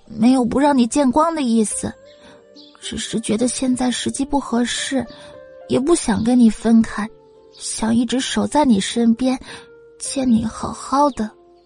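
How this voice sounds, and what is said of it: Quiet, soft, gentle voice. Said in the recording (Chinese): “一字一句，小姑娘说的很小声，也很柔和”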